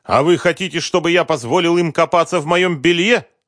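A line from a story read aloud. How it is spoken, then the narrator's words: Angry question. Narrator (Russian): зло спросил Концевич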